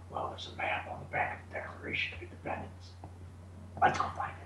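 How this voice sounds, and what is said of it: Nicolas Cage impression. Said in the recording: “Nicolas Cage ... You should do impersonation in your act.”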